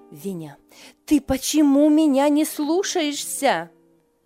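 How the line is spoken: Shout. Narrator (Russian): крикнула она

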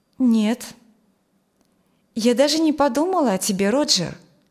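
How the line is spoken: Calm reply. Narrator (Russian): спокойно ответила она

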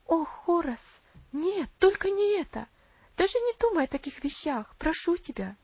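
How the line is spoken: Tearful exclamation. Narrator (Russian): воскликнула Аделаид со слезами на глазах

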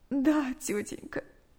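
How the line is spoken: Tearful reply. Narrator (Russian): сквозь слезы ответила Наташа

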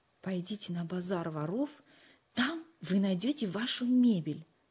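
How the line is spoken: Low voice. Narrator (Russian): вполголоса сообщил Нату

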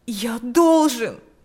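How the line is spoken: Exclaimed. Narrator (Russian): воскликнул

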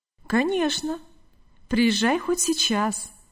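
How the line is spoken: Calm reply. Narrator (Russian): спокойно ответил хозяин

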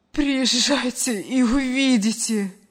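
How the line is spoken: Strained, forced words. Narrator (Russian): выдавила из себя женщина

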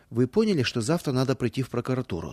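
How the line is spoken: Plain. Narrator (Russian): спросил он

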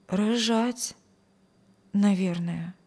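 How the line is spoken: Uncertain daughter's reply. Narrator (Russian): неуверенно ответила дочь

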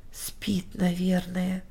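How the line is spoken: Old woman whispering. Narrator (Russian): прошептала старушка

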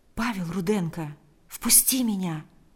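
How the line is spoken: Very quiet. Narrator (Russian): ответил Павел очень тихо

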